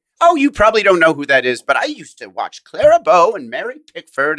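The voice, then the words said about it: Stereotypical old lady voice. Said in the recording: “that's a terrible impression of my grandmother. That's just such a stereotypical old lady impression.”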